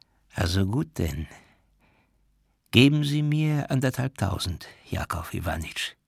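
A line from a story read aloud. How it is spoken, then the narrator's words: Quiet, trembling. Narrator (German): sagte er leise und am ganzen Körper bebend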